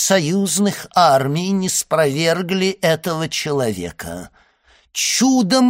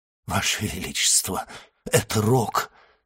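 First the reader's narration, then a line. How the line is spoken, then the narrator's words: Minister's mutter. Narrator (Russian): пробормотал министр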